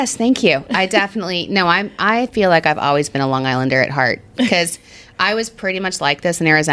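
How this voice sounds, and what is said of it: Usual voice. Nothing is said of it.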